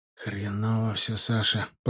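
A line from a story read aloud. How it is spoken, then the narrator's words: Sad grumbling. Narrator (Russian): пробурчал Нарыв грустно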